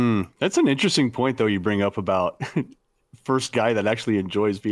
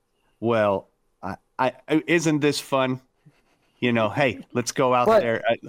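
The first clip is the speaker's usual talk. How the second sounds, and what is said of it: Imitates another person's voice. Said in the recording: “have a good Riley impression, ... You've been workshopping”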